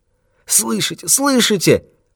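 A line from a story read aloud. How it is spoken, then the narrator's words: Moaning. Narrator (Russian): простонал он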